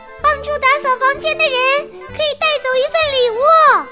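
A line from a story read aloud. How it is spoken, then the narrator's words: Shouting. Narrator (Chinese): 他大喊道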